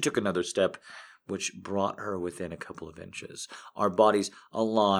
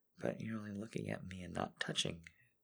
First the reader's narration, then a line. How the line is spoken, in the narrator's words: she whispered